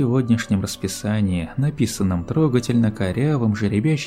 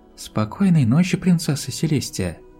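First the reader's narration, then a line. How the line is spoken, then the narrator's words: Quiet goodnight. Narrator (Russian): Тихо произносит новая ученица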